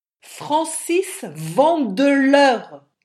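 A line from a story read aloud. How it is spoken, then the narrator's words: Shouted, stressing second name. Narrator (French): cria-t-il en soulignant le second nom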